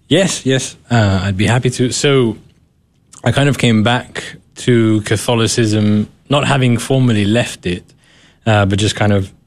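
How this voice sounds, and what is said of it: British accent. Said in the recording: “There's that British accent.”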